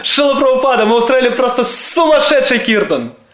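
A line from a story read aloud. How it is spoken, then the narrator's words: Shouting again. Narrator (Russian): снова закричал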